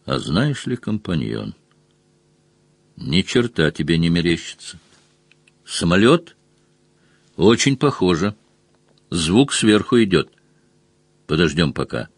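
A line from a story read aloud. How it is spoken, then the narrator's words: Quiet. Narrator (Russian): Мазур тихо ответил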